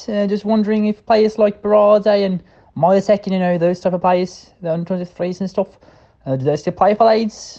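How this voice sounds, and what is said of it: Attempted British accent, wandering regionally. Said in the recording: “trying out a British accent ... He strayed into all sorts of different regional accents there, such as there was a little bit of Brummie in there”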